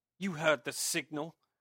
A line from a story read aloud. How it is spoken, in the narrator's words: shouted angrily